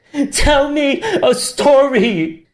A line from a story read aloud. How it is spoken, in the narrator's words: Tian screamed